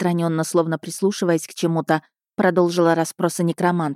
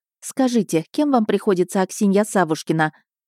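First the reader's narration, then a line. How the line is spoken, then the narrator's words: Calm interruption, lady. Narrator (Russian): спокойно прервала ее барыня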